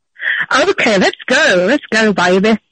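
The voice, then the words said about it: Attempted American accent. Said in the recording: “I need to hear your American accent ... But that's your American accent?”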